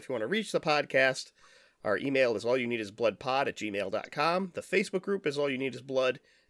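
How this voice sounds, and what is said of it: Nasal, congested voice. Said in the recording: “Man, I am so nasally today, I can hear it in my own voice.”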